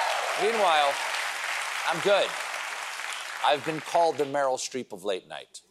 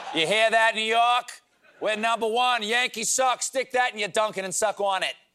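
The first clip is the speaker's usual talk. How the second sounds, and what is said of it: Put-on Boston accent. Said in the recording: “my attempt at a Boston accent”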